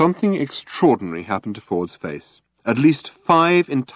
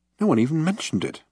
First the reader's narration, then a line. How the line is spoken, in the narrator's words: muttered Arthur irritably